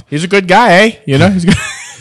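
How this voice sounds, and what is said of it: Put-on Canadian accent, fairly convincing. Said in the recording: “not terrible Canadian accent ... That was pretty good, actually ... I thought you were straight from Ontario with that one.”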